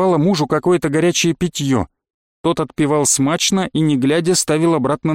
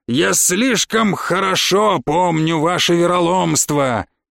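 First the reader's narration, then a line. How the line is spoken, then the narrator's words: Smug triumphant laughter. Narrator (Russian): захохотал довольный собой победитель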